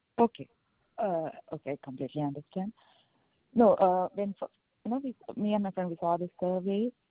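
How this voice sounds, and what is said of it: Strong accent, hard to understand. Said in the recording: “you need to go a little bit slower ... because your accent. I am not understanding you.”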